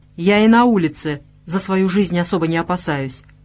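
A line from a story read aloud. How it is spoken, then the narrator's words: Irritated snap. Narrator (Russian): огрызнулся недовольной покладистостью разбойника Владивой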